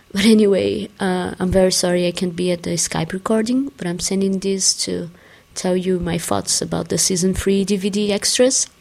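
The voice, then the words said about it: Sick, rough voice. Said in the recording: “sorry about my voice. I'm a little sick and it's 4 a.m.”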